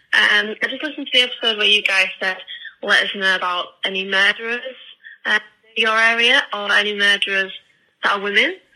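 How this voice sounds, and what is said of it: British accent. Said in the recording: “I'm calling from the UK, as you Ooh. Can probably tell by my voice.”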